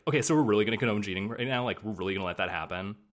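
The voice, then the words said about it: Fed-up Valley Girl voice. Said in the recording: “her accent when she's like fed up is like a sort of like Valley Girl over it thing”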